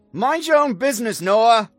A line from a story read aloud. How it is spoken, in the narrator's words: she shouted through the door